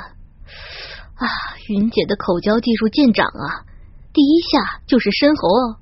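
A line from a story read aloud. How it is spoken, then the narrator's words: Admiring. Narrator (Chinese): 一边还赞叹着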